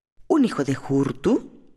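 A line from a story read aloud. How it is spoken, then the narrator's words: Astonished exclamation. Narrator (Spanish): exclamó atónito el tribuno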